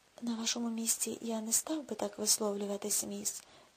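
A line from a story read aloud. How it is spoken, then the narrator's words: Calm remark. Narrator (Ukrainian): спокійно зауважив Джордах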